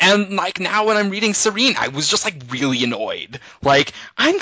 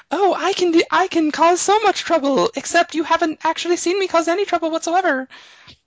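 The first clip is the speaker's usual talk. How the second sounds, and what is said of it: High falsetto mocking voice. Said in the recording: “falsetto”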